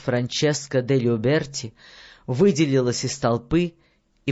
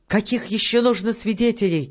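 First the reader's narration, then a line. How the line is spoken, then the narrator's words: Exclaimed. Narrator (Russian): воскликнула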